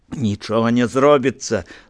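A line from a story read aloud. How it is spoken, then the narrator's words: Laughing. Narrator (Belarusian): засмяялася яна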